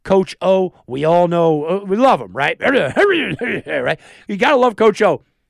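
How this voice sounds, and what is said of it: Imitates another person's voice. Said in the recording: “my Coach O impersonation... it was nailed it”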